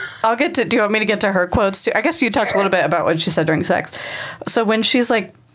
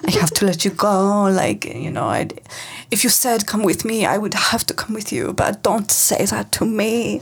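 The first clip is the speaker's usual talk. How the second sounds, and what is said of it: Put-on Italian accent. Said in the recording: “this is my Italian accent.”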